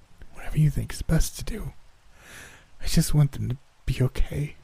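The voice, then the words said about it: Weak, raspy voice. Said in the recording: “My voice is a little and raspy, almost foreign to my ears.”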